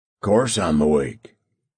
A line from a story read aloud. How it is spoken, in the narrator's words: he growled